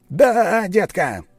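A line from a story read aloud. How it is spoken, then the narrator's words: Shouting. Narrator (Russian): закричал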